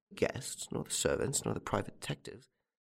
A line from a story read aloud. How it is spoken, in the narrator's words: He muttered